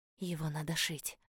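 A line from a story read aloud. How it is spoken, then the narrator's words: Quiet. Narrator (Russian): тихо сказала я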